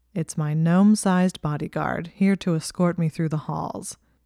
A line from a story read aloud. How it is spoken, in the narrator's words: he said in a dry voice